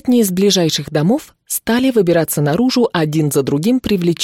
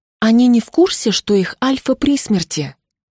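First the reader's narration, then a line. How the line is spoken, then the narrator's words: Quiet question, witch. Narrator (Russian): Тихо поинтересовалась ведьма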